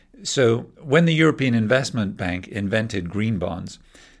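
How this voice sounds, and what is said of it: Usual voice. Nothing is said of it.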